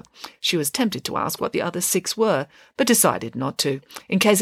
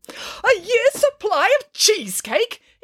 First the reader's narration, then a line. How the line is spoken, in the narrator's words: exclaimed Nanny Piggins